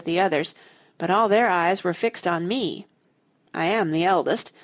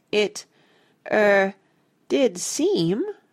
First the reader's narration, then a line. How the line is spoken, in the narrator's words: I faltered